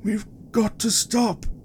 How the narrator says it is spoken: the general wheezed between breaths

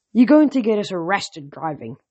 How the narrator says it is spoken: Thaya grumbled

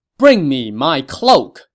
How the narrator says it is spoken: Wen Pin shouted

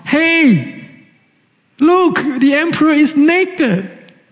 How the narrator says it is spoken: a young child called out

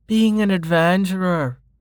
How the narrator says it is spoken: slurred

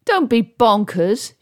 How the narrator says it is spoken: shouted

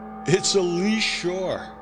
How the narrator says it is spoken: I laughed

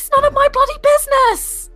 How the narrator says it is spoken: She just shouts back

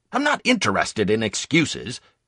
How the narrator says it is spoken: he snapped

